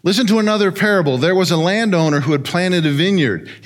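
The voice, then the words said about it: Fast auctioneer-style rapid reading. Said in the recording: “my best imitation of an auctioneer and go through this pretty quick”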